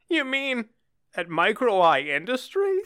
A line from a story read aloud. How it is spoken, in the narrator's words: Frank exclaimed